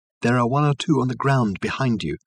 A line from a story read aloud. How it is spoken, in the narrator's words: called Reg softly